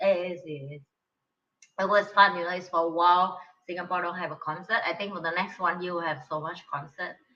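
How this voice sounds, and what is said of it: Hoarse, strained voice. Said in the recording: “that's why I'm lost my voice.”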